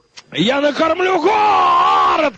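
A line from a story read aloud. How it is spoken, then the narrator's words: Shouted. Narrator (Russian): крикнул Рустамбай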